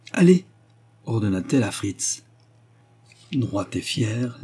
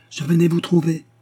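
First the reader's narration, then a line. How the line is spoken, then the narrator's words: Exclamation. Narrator (French): s'écria-t-il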